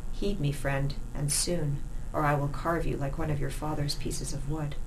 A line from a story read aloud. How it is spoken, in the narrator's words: he said, so quietly